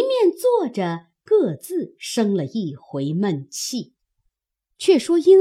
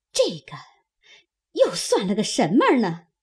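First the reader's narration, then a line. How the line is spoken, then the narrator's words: Muttering to oneself. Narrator (Chinese): 嘴里咕咕哝哝自言自语道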